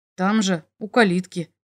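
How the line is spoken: Suspicious boy's mutter. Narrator (Russian): буркнул мальчишка с подозрением

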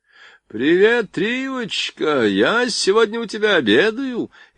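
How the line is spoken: Cheerful shout through megaphone. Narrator (Russian): весело прокричал в мегафон

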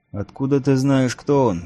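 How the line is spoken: Exclaiming. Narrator (Russian): воскликнул Эрт

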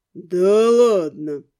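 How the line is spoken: Drawling ghost. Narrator (Russian): протянул призрак

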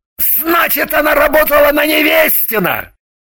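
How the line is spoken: Triumphant shout. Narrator (Russian): закричал он, торжествуя

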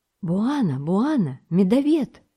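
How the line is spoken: Exclaimed. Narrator (Russian): воскликнул Самбо

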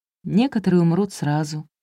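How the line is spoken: Sad reply. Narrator (Russian): грустно ответила Камилла

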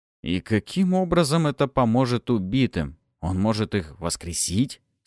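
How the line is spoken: Plain. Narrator (Russian): спросил я

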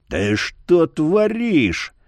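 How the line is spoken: Icebreaker's growl. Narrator (Russian): прорычал ледорез

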